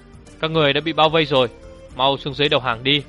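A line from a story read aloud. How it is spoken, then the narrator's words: Loud shout. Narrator (Vietnamese): hét vang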